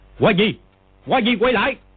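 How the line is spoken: Shouting. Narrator (Vietnamese): Quách Tĩnh quát

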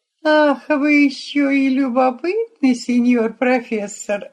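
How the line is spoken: Laughing. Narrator (Russian): рассмеялась Тереза

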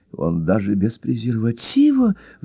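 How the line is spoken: Excited whisper in ear. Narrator (Russian): взволнованно зашептала Джелли на ухо леди Райс

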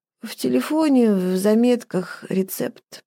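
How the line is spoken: Drowsy incoherent mumble. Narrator (Russian): С трудом и несколько бессвязно пробормотала Ева, проваливаясь в уютную черноту сна без сновидений

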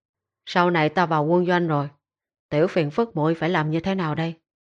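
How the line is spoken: Soft sigh. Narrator (Vietnamese): cậu khẽ thở dài nói

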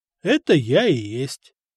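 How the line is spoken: Calm. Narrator (Russian): спокойно ответил Деметрий

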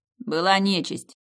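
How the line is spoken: Snorting. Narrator (Russian): Я фыркнула

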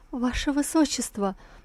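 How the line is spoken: Trembling babble. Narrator (Russian): дрожащим голосом пролепетала

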